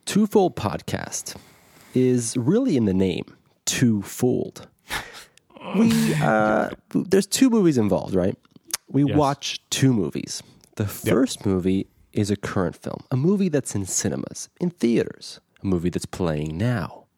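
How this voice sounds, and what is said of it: Radio announcer voice. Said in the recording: “Your radio voice is just increasing.”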